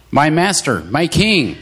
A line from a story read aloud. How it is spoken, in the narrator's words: David stood at the mouth of the cave and called out to Saul